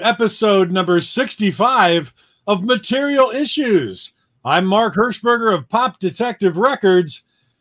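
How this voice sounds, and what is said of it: Exaggerated radio announcer voice. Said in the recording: “I had to do my best radio voice there”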